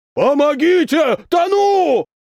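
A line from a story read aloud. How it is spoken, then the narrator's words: Drowning man shouting. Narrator (Russian): кричал здоровяк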